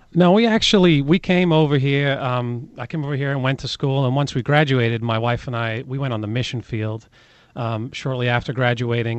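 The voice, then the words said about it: Mild British accent. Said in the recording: “you've got a mild British accent. It's still there a little bit, but when you came over here, it was heavier.”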